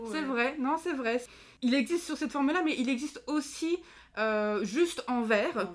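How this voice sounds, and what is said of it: Usual voice. Nothing is said of it.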